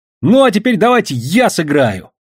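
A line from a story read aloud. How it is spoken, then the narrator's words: Ringing shout. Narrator (Russian): звонко прокричал Васька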